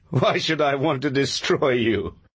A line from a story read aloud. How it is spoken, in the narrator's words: He said, laughing